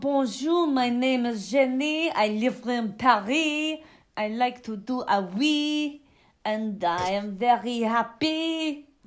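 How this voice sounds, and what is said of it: Weak put-on French accent. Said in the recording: “I can't even do a French accent ... I can't do a French accent.”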